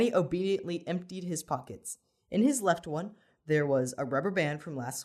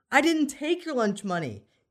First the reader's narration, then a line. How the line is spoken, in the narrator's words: Danny practically screamed back